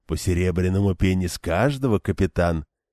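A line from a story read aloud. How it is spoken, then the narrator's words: Deceptively sweet purr. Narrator (Russian): обманчиво сладким голосом промурлыкал он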